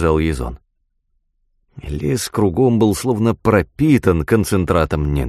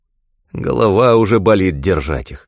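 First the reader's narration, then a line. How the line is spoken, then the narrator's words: Grumbling. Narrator (Russian): проворчал Накса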